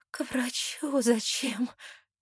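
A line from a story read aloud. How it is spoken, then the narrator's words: Hoarse. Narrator (Russian): сиплю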